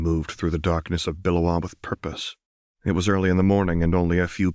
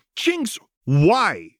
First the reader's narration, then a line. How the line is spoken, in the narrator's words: snapped